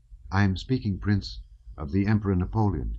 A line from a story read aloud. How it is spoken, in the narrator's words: he replied